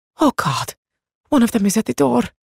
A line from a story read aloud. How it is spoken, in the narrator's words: she whispered